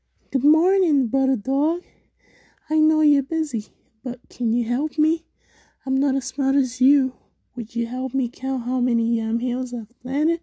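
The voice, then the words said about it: Sweet, ingratiating character voice. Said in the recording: “The sneaky spider spoke in his sweetest voice.”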